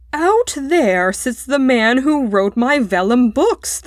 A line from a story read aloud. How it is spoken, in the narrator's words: thundered Mr